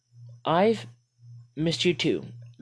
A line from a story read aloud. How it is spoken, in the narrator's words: Maddie replied stiffly